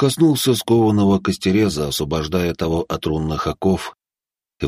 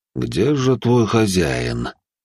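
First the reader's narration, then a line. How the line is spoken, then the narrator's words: Almost gentle. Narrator (Russian): почти ласково обратился к нему пламенеподобный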